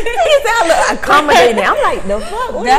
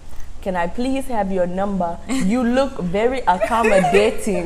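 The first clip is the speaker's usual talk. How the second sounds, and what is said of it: Imitates an African man's voice. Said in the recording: “this little African man, he was like, I'm about to do the voice.”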